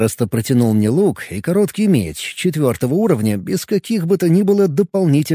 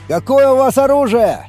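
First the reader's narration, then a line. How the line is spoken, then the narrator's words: Shouted. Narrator (Russian): крикнул я Винви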